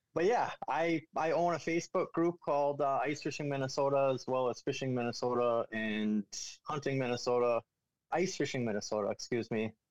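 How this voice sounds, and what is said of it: Minnesota accent. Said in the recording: “I'm from central Minnesota. I got the typical Minnesota accent.”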